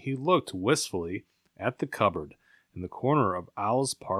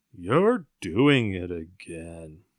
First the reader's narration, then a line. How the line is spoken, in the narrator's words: said Poop, sadly